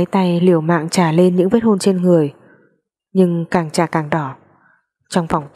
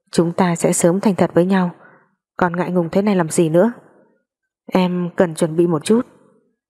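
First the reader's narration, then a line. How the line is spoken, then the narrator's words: Soft laugh, muffled outside. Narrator (Vietnamese): Lý Trọng Mạnh ngoài cửa khẽ cười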